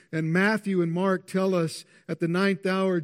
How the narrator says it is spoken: Jesus cried with a loud voice

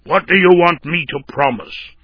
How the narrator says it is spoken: sharply inquired

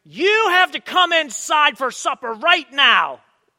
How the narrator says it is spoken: They will put their hands on their hips and scream

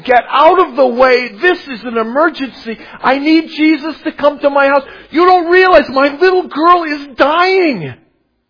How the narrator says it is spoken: screaming like a siren saying

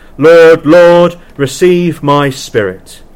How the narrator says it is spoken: he cried with a wonderful loud voice

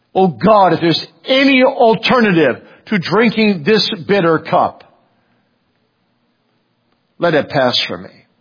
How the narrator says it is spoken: he cried out

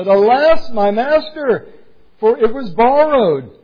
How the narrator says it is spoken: he cried out and said

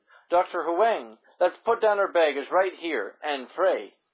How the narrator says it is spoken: Gladys suddenly burst out sobbing and cried in desperation

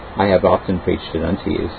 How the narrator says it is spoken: said I

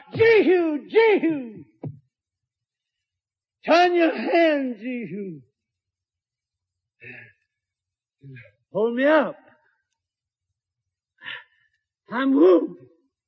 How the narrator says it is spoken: he fell over on the chariot rim and cried aloud

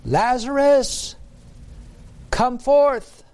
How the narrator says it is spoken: Jesus cried out with a loud voice

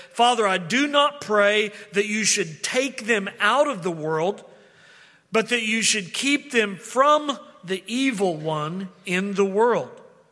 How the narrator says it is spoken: Jesus cried out to the Father and said

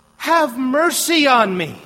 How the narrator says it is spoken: he cried

